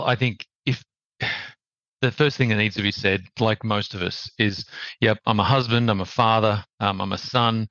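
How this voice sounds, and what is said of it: Australian accent. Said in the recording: “As you can tell by the accent, ... native Australian,”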